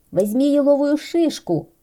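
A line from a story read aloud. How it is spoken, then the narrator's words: Shouted. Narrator (Russian): крикнул ежик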